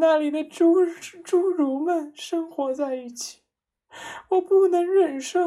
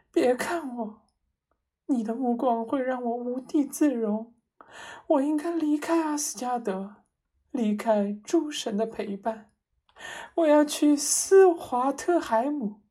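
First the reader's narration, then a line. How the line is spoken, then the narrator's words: Choked with tears. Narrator (Chinese): 他哽咽道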